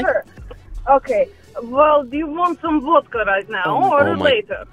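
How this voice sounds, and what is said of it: Thick put-on Russian accent. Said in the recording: “put on a thicker, like, a Russian accent”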